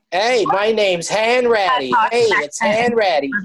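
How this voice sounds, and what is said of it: Tom Hanks' wobbly Boston accent. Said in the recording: “Tom Hanks in Catch Me If You Can ... Supposed to be Boston? ... It's supposed to be Boston. It's horrific. He's all over the road with it.”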